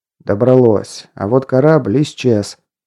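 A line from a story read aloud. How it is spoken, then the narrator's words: Minister grumbling. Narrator (Russian): пробурчал министр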